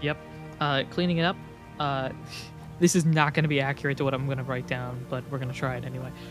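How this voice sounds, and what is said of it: Usual voice. Nothing is said of it.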